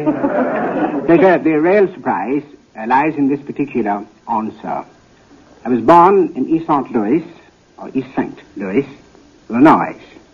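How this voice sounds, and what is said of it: British accent. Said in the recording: “an African prince with a British accent”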